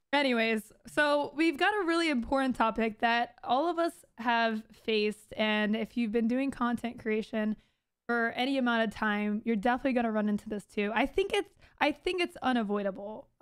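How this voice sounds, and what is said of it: Hoarse, worn-out voice. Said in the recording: “my voice has been gone for a month”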